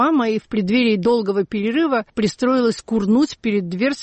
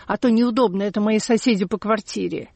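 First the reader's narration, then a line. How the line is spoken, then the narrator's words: Whispered. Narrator (Russian): прошептала шахматистка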